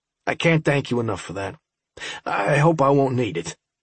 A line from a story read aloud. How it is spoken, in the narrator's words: I said